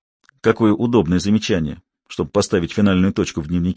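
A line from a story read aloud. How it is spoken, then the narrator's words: Plain. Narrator (Russian): сказал я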